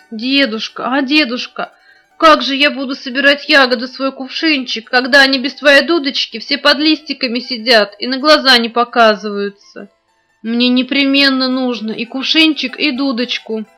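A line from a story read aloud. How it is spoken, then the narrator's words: Pleading. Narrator (Russian): Женя взмолилась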